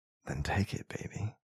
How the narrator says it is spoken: I whispered

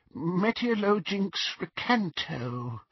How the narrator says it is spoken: whispered Ron

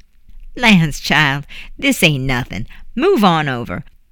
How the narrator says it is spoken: laughed

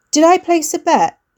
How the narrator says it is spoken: he asked too loudly

